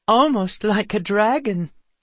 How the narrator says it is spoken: a third said with a giggle

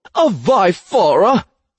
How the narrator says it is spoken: Cauldron exclaimed

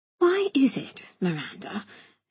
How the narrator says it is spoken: she whispered

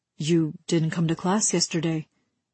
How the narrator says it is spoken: Sparrow said

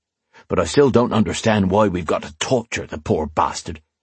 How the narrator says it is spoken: he said gruffly

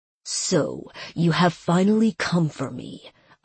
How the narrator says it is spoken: Asrael growled, his indignation rising

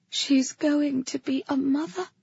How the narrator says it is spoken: Kata whispered

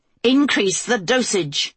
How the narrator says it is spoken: the Queen snapped, doing her best to force her voice through the thick pane of glass

